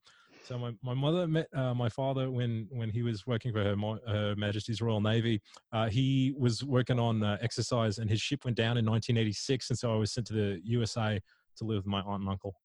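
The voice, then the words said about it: Put-on Australian accent. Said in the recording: “I'll do it in an Australian accent”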